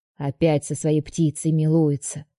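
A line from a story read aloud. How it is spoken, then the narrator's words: Snorting grandmother. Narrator (Russian): фыркнула бабушка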